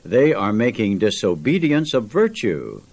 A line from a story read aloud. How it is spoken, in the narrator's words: a churchman exclaim